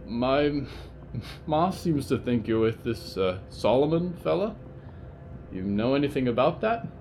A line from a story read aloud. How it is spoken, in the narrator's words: they stuttered